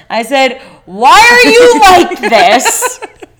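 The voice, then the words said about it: Shouting loudly. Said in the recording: “I'm sorry for shouting. ... Because you're going to ruin our levels.”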